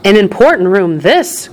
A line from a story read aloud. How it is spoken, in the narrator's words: cried Mr